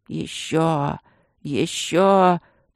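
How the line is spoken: Pleading hoarse rasp. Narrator (Russian): просительно хрипел шаман

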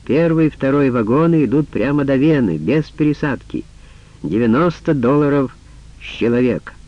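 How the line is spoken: Loud announcing. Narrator (Russian): громко вещая

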